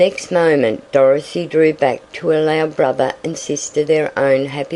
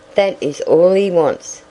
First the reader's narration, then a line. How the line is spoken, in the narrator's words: she said